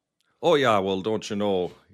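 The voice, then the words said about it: Put-on Minnesota Fargo accent. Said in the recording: “the Fargo accent”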